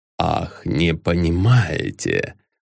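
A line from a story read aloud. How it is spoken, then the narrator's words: Hissing. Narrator (Russian): Прошипел Ламсдорф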